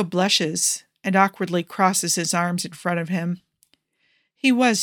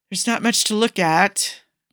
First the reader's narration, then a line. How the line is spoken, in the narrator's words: Primo mumbles, a light blush coloring his cheeks